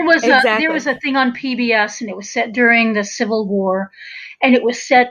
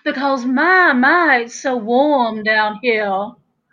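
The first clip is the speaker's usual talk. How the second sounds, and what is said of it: Exaggerated 1950s Georgia Southern accent. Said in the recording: “this very 1950s Georgia accent”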